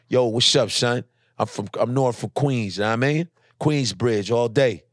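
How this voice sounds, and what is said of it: Put-on Brooklyn accent. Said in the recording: “how do I say I'm ... from Queens in a Brooklyn accent.”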